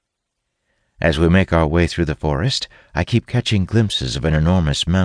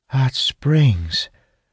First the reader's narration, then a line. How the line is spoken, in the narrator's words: Zara says, her voice brimming with wonder